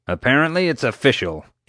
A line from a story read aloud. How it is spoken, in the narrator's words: growled